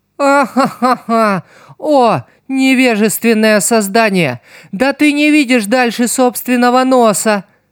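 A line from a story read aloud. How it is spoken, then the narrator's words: Ringing mocking laughter, woman. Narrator (Russian): Звонко расхохоталась приручительница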